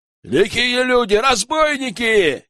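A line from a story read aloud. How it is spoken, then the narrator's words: Shout. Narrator (Russian): крикнул кто-то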